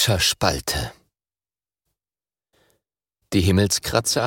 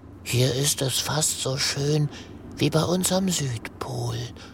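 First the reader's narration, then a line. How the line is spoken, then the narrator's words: Whisper. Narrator (German): flüstert Greta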